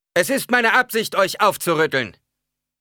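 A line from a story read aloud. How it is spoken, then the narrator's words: Preacher calling out. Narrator (German): rief der Prediger jetzt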